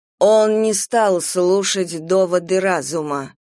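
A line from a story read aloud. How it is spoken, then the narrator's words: Even voice. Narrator (Russian): ровным голосом сказала Юдив Дейтерос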